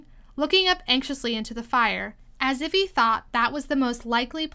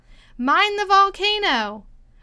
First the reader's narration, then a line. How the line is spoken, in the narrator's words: As soon as she had recovered her breath a little, she called out to the White King